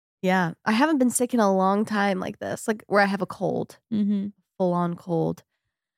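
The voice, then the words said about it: Nasal congested voice. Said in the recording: “I sound a little nasally, more nasally than usual.”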